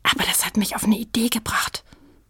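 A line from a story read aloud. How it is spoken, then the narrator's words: Whispered. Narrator (German): flüsterte Sprotte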